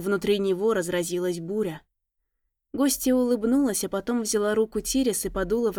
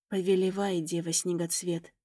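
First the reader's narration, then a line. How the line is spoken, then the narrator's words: Snow witch speaking quietly. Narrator (Russian): тихо заговорила снежная ведьма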